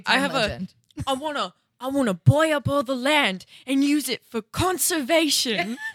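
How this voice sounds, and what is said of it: Imitates another person's voice. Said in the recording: “my Steve Irwin impression”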